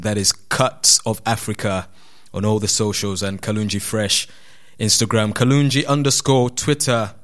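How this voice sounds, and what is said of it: Ugandan accent. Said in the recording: “in case you struggle to decipher this Ugandan accent.”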